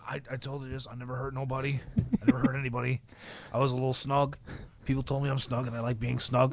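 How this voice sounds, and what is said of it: Bret Hart impression. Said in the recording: “I'm going to be Bret Hart for a second... Give me some Bret Hart... you want me to do an impression?”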